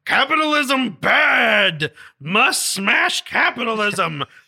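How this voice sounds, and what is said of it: Frankenstein monster character voice. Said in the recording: “It's my Frankenstein impression.”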